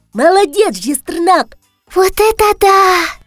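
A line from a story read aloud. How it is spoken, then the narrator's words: Breathless exclamation. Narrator (Russian): Выдохнула ведьмочка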